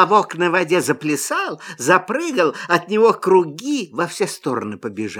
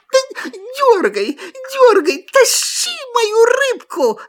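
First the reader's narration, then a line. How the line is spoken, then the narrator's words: Shout. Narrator (Russian): закричала лиса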